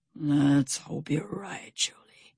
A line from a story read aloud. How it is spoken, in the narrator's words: Stout Sam whispered